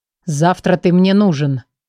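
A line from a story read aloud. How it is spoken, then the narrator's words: Gloomy mutter. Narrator (Russian): хмуро пробурчал он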